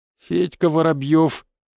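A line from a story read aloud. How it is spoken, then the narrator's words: Forced out, strained. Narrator (Russian): выдавил парень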